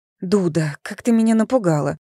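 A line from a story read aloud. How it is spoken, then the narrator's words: Frightened, breathless. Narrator (Russian): выдохнула Эва, хватаясь за сердце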